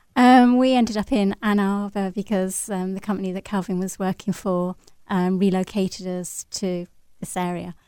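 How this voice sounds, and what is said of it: English accent from the Midlands. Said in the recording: “Your accent, we can tell you're not from around here ... We're obviously from England, from the middle of England.”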